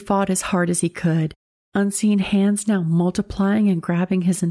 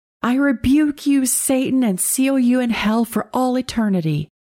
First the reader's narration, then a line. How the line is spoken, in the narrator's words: He repeatedly screamed